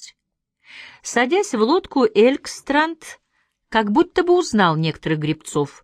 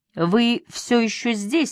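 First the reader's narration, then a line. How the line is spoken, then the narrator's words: Plain. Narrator (Russian): сказал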